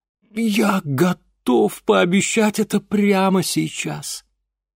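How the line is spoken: Relieved exhale. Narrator (Russian): С нескрываемым облегчением выдохнул Ипполит Германович

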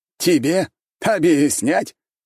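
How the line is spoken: Loud laughter. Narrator (Russian): Теперь уже хан хохотал

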